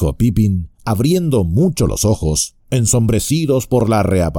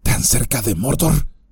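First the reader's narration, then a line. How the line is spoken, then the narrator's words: Whispered. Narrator (Spanish): dijo Beregond en un susurro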